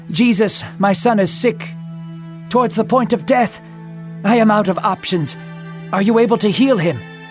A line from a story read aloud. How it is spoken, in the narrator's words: Panting, the man gasped for words